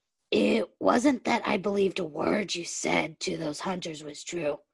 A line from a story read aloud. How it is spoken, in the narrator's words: Derek murmured in response